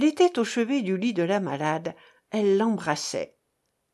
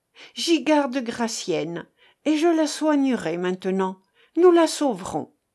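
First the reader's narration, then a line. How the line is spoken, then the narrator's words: Exclaimed. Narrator (French): s'écria-t-elle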